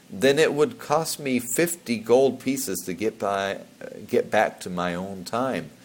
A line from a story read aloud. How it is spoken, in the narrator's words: muttered Tokubi